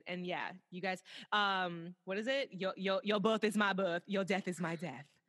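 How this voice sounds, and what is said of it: Poor put-on accent. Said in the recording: “My shitty ass accent.”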